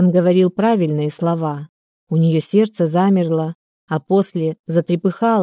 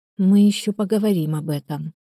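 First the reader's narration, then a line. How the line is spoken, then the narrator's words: Intimate whisper. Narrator (Russian): прошептала Ольга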